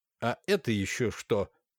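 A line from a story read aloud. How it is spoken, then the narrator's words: Stern question. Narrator (Russian): строго спросил он Макара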